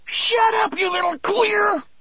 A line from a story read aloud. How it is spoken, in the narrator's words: Percy yelled back, so furious that the veins stood out on the sides of his neck